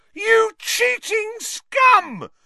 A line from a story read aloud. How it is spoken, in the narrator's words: howling into the megaphone